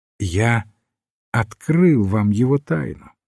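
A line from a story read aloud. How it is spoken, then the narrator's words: Plain. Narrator (Russian): сказал священник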